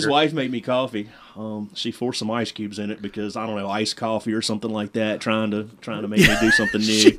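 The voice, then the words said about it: Thick Virginia accent. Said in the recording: “this is an accent in Virginia... Mine's thicker than his.”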